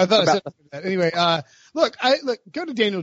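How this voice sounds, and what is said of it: Usual voice. Nothing is said of it.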